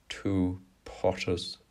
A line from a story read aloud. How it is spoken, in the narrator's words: drawled